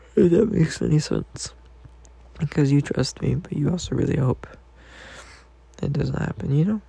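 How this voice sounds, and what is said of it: Sleepy, slightly high-pitched voice. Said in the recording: “I'm just so tired. I'm sleepy. ... My voice is a little high because I'm sleepy.”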